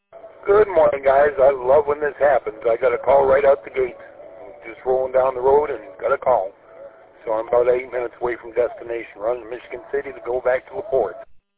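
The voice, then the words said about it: Excited voice. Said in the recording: “I can hear the excitement in your voice”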